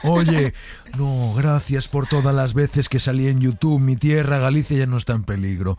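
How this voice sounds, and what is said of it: Imitates another person's voice, Galician accent. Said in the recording (Spanish): “Entro con un personaje ... Soy Luis Zahera ... acento galego”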